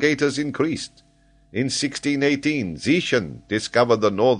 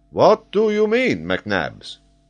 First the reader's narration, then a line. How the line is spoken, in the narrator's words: exclaimed Paganel